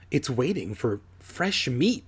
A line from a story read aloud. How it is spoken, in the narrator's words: Alex murmured